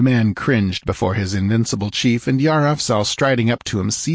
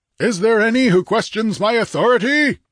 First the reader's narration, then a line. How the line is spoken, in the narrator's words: he roared